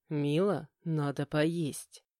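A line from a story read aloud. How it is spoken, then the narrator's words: Coaxing insinuating hint. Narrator (Russian): намекнул вкрадчиво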